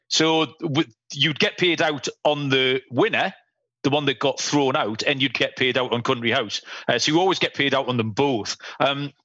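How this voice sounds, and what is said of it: Northern English accent. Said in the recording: “you might be detected from the daft accent. Yeah, I'm in the north of England”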